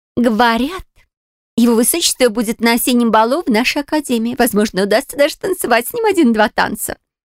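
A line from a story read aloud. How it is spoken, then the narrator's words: Dreamy exclamation. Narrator (Russian): воскликнула подружка Клара, мечтательно закатив глаза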